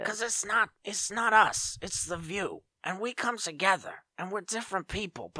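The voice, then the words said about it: Whoopi Goldberg impression. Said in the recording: “You could just bring up Whoopi Goldberg and I'll slip into the Whoopi voice.”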